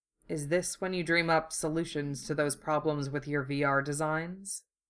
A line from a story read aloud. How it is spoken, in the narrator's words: he murmured